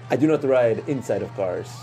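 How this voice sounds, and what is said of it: Unpracticed attempt at Wakandan accent. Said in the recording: “What accent is that? ... I was trying to, I don't know what I'm doing. I haven't practiced my Wakandan accent.”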